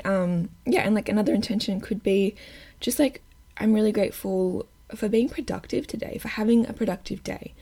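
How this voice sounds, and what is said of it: Croaky, slightly strained voice. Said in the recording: “I started getting a mad frog in my throat. If I sound funny ... My voice is just being a little bit weird”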